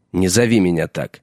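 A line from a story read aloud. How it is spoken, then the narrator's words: Sharp, anger subsiding. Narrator (Russian): резко сказал Джон, но гнев его поутих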